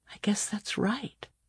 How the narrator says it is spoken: Claudia said quietly

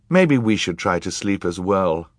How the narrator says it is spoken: Klaus said

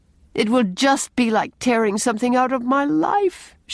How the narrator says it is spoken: she sobbed

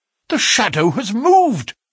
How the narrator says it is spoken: I cried

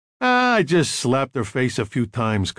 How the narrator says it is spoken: Carlo said

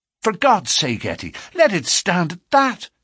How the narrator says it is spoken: he cried

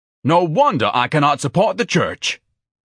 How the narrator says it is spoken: Ignatius bellowed

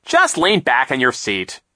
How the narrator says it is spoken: Captain Sham said sharply

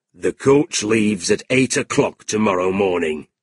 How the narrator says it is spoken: he said

